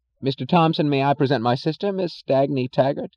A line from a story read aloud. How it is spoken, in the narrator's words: James Taggart to say uncertainly and loudly